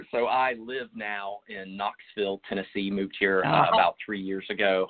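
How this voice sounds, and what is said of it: Slight Southern twang. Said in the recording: “you've got a bit of an accent... It's slight... I do have a bit of a Southern twang”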